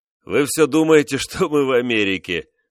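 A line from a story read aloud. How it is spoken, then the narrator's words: Speaking through laughter. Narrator (Russian): сквозь смех проговорил он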